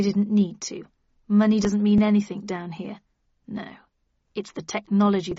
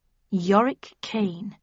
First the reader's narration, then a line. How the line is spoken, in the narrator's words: I murmured